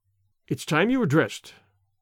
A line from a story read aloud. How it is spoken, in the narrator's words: she said curtly